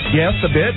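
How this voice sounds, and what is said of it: Almost a British accent. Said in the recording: “That was almost the British accent. British accent there.”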